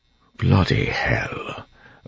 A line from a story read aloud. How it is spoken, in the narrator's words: Breeze muttered